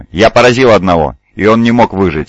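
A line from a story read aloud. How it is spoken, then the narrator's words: Plain. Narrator (Russian): сказал Десаан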